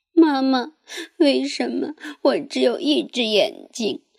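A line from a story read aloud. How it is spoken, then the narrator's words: Crying child. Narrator (Chinese): 伊势哭着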